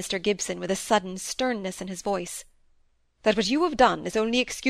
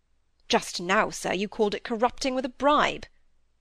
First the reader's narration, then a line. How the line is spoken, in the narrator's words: muttered Coxe